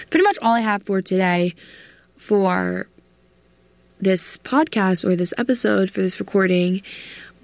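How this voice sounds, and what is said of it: Strained, fading voice. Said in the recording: “I've been talking for a lot, so I'm starting to lose my voice.”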